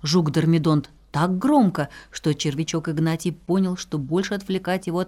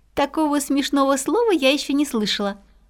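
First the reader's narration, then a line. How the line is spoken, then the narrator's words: Laughing. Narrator (Russian): засмеялась Пятнашка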